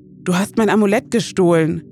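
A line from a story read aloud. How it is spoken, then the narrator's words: Calling out. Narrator (German): ruft Emily ihr zu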